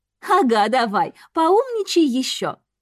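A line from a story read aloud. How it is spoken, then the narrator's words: Ringing laughter. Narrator (Russian): Она заливисто расхохоталась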